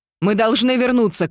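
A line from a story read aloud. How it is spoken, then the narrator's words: Shouting. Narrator (Russian): крикнула я тете Шарлотте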